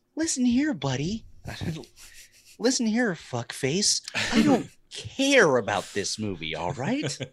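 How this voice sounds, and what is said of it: Imitates another person's voice. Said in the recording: “my best Jason Bateman impression”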